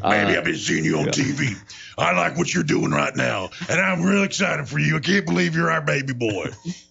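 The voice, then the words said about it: Imitates another person's voice. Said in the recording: “that voice you just gave right there ... In his Coach O voice? ... I like your Coach O ... that's how she's talking”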